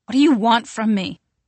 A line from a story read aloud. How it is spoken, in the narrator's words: she asks suddenly, her voice strained and harsh